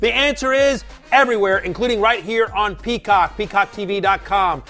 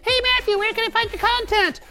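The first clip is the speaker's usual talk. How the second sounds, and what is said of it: Speaks in a different voice. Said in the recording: “myself in a different voice.”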